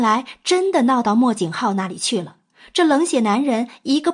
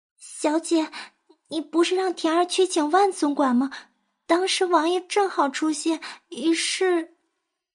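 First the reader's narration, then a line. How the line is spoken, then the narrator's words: Quiet reply. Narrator (Chinese): 田儿…小声回答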